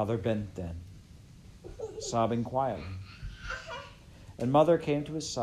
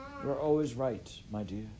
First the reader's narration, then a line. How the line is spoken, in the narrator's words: said